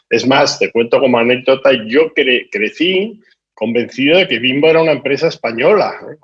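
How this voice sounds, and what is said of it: Spanish accent from Spain. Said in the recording (Spanish): “yo soy español, como se manifiesta por mi acento”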